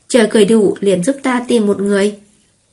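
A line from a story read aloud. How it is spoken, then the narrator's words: Speaking after deep breath. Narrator (Vietnamese): hít sâu một hơi nói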